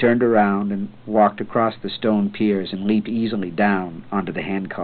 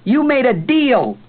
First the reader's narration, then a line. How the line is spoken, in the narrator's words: the boy screamed after him